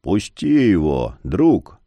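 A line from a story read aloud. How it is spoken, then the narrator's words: Cold stony calm. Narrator (Russian): произнес Яр с холодно-каменным спокойствием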